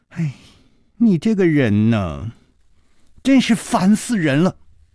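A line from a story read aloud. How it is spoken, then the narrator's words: Sighing. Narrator (Chinese): 老板娘叹了一口气说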